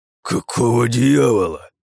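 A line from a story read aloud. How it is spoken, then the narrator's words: Breathed out, sheriff. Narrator (Russian): выдохнул шериф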